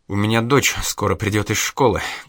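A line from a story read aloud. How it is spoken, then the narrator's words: Carefully even tone. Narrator (Russian): как можно более ровным тоном сказала Инга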